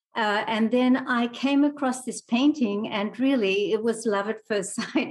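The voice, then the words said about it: Australian accent with mixed influences. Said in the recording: “you have this Australian accent, but it's also kind of this accent that feels like it's been around all over the place”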